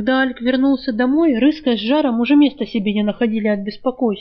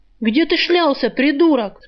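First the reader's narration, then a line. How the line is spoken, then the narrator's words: Thief yelling angrily. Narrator (Russian): с порога заорал на него вор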